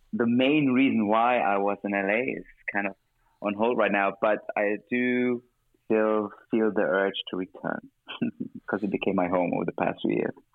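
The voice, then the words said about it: German-accented English. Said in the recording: “in you I hear a German accent”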